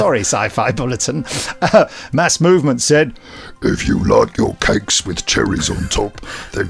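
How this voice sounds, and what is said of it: Usual voice. Nothing is said of it.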